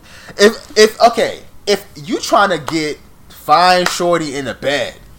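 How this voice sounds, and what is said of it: Sudden New York accent. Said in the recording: “I don't know why my accent just changed... New York, like the New York just jumped.”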